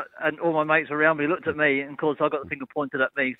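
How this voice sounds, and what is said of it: Posh, refined English accent. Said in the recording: “you sound too posh to fart. You sound very refined... dodgy Pommy accent”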